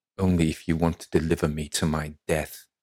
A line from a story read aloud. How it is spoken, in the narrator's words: she snarls